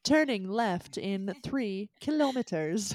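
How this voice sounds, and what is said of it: British GPS voice accent. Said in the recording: “when I change my GPS to a British accent”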